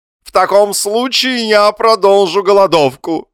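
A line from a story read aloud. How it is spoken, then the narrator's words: Unhappy husband shouting. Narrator (Russian): закричал несчастный муж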